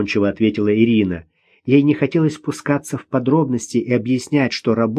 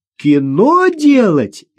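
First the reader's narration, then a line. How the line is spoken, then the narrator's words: Burst of laughter. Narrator (Russian): Вера расхохоталась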